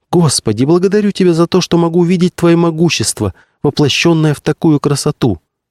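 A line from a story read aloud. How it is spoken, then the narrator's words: Exclaimed. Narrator (Russian): воскликнула Гавранкова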